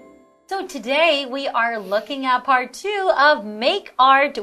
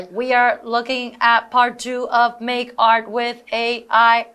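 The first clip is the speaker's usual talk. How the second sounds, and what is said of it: Robot voice. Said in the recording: “You should do it in a robot voice.”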